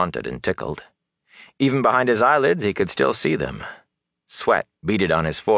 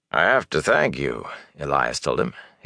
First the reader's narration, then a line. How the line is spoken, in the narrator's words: his tone sober and solemn